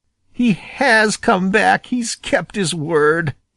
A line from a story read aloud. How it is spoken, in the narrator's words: he half sobbed